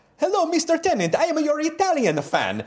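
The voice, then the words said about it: Put-on Italian accent, broken English. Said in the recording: “It's actually written in a kind of broken English. I'm going to do another accent”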